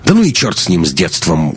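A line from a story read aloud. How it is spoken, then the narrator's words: Rough, curt. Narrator (Russian): грубо бросил Лекс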